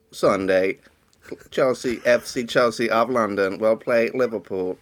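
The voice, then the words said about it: Robotic computer voice. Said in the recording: “Do a robot voice ... the supercomputer just made me sound like an eminent physicist”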